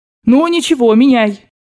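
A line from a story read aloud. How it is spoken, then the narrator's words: Decisive shout. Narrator (Russian): крикнула она решительно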